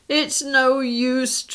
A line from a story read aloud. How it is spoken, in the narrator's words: Tracy howled